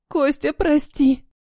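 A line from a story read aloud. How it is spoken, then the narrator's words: Sobbing inside a car. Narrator (Russian): Рыдает внутри машины Ника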